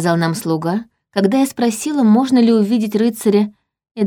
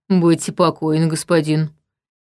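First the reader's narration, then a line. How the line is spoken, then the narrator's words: Deep bass voice. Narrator (Russian): ответила та густым басом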